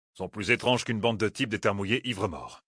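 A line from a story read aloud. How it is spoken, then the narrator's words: Grumbling. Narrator (French): grommela Gaul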